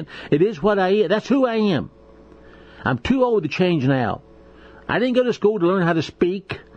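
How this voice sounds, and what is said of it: Slight Southern American accent. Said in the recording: “I was born a hillbilly... I talk funny. I have a slang and a little bit of southern accent.”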